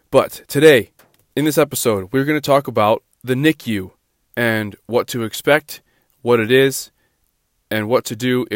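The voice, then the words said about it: Stuffy, congested, slightly deeper voice. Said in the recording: “my voice right now, because it is a little stuffy. I have a stuffy nose ... I will talk slow ... my voice is a little bit deeper now”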